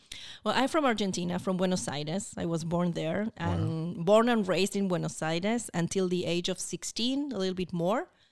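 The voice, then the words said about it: Foreign accent, Argentine speaker. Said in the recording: “I wasn't born in Israel... You can hear that in my accent”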